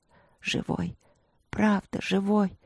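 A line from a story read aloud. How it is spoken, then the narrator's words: Heavy sigh. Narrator (Russian): Люк тяжело вздохнул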